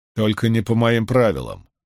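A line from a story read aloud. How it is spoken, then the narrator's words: Cold reply. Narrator (Russian): холодно прозвучало в ответ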